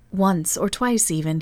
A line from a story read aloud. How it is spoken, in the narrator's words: he laughed till the room rang again